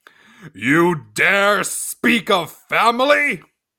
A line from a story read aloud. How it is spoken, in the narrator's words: His voice boomed through the chamber's stone walls